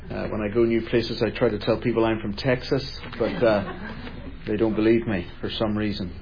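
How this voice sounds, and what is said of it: Speaks with an unusual accent. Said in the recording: “I have a strange accent.”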